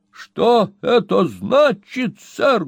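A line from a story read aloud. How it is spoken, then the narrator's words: Menacing, raised voice. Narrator (Russian): грозно повторил мистер Магнус, повышая голос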